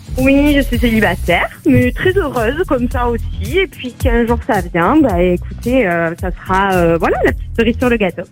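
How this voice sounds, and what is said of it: Cute Marseille French accent. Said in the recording (French): “votre petit accent mignon de Marseille ... c'est le petit accent du soleil”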